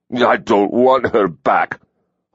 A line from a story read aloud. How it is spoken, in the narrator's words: Hawk snarled